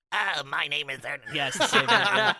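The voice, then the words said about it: Rough-edged comic character voice. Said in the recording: “Can you do Ernest? ... Slightly rougher version.”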